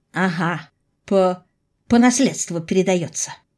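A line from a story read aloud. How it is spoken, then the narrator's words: Hoarse, breathless sarcasm. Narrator (Russian): хрипло съязвила я, пытаясь хоть вздохнуть полной грудью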